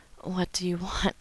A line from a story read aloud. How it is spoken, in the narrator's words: gasped